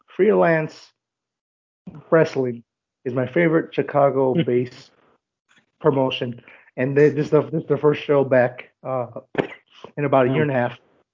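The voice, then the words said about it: Crackly, hoarse voice. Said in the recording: “my voice seems a little crackly ... I lost my voice from last night”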